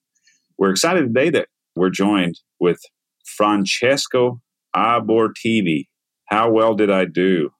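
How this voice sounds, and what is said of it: American gringo accent on Italian name. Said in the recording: “that was a gringo accent”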